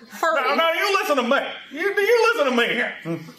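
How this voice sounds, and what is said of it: Jimmy Stewart impression, old-man voice. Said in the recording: “Jimmy Stewart impressions... You sound like an old man”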